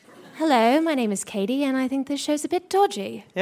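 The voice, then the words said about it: Put-on British accent. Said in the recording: “I can do a British one ... Very good.”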